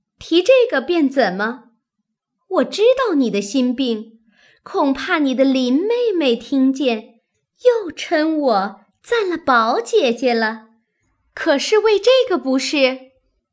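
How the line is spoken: Scoffing laugh. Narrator (Chinese): 袭人在旁嗤的一笑，说道

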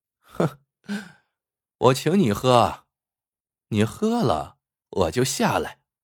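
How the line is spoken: Laughing. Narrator (Chinese): 杨云英笑道

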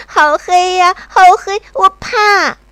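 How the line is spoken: Loud crying. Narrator (Chinese): 在那里大声哭

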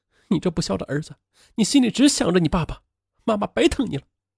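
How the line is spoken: Mother crying. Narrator (Chinese): 母亲哭了

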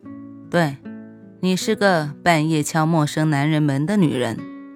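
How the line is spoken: Resigned sigh. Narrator (Chinese): 无奈的叹气说

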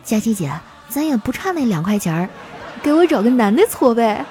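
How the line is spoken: Quiet whisper. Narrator (Chinese): 丸子小声地说

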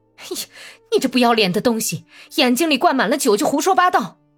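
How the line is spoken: Drunken rough laughing shout. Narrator (Chinese): 伊尔马科夫已经酩酊大醉，笑得前仰后合，粗鲁的喊

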